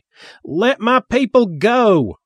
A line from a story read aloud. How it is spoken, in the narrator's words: Reverend Sparkle Jones yelled